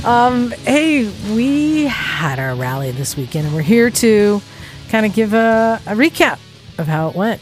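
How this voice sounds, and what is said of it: Tired, exhausted-sounding voice. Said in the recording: “I don't know if you can hear the exhaustion in my voice”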